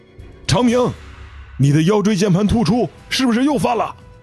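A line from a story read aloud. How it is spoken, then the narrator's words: Startled cry. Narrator (Chinese): 这位队员惊叫着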